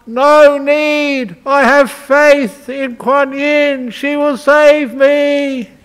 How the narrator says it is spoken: he shouted out

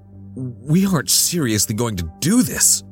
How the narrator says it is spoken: I gasped, hands shaking

